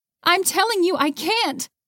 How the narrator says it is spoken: Haley yelled

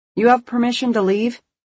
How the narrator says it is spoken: He called out

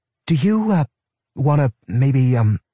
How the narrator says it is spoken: she stammered

